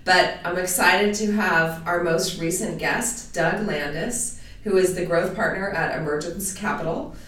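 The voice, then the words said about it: Voice slightly off from a cold. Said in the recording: “I'm struggling a little bit with a cold, so my voice is a little off”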